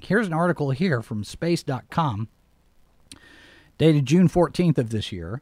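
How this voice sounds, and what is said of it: Slightly strained voice. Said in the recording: “my voice is probably a little strained because I was up late”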